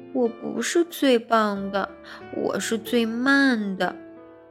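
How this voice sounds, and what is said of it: Quiet, tearful child's voice. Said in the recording (Chinese): “小声地说，接着呜呜地哭了起来”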